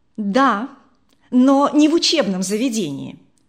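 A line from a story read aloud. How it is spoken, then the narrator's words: Angry reply. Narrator (Russian): сердито ответила она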